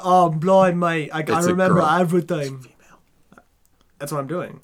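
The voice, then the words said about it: Put-on Londoner accent. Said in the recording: “I can't do a Londoner accent, but that's what she had.”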